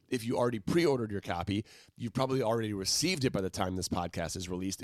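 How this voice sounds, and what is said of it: Low-pitched, subdued voice. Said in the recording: “I'm more excited than my voice is. I would normally be like an octave higher about this.”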